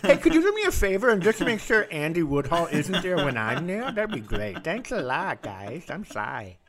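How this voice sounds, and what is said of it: Flawless impression of a co-host. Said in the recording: “you did a flawless impression of Sai”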